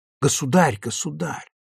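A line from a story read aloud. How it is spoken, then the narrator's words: Crowd whispering. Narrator (Russian): среди приглашенных пронесся шепот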